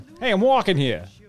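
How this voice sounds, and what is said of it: Exaggerated New York Brooklyn accent. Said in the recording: “shitty New York, Brooklyn landlord accent”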